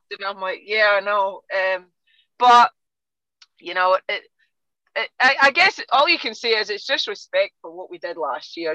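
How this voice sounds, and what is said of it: Scottish accent. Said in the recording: “you can tell by my accent, I'm not from Texas ... In Scotland”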